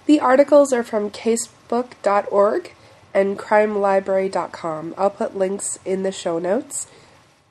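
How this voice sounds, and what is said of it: Hoarse, congested voice. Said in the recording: “I am losing my voice, I've had some sort of sinus thing going on”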